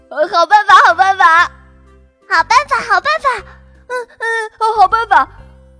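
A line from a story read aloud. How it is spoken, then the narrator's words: Boy loudly suggesting. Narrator (Chinese): 一个男孩子大声提议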